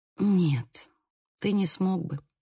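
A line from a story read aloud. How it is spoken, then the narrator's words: Sighing. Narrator (Russian): вздохнула я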